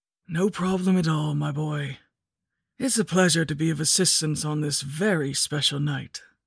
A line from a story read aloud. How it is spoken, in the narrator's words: he said in a raspy voice